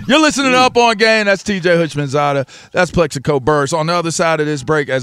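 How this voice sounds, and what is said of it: Usual voice. Nothing is said of it.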